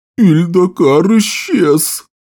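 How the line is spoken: Moaning. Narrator (Russian): простонал волшебник Рен

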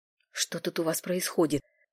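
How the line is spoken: Whisper. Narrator (Russian): шепнул он

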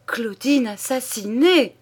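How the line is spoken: Exclaiming. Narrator (French): s'écria-t-il

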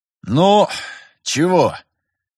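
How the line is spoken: Sigh. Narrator (Russian): вздохнул Терентьев наконец

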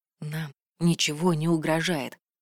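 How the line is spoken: Quiet. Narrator (Russian): произнес он тихо

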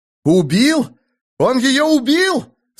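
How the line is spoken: Disbelieving yell. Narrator (Russian): заорал Айрунг, отказываясь поверить собственным глазам

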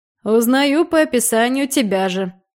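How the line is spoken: Chuckling. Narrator (Russian): хохотнул Жоржи

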